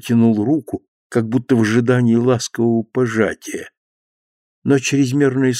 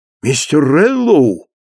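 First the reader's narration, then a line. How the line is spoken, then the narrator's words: Excited exclamation. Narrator (Russian): воскликнул он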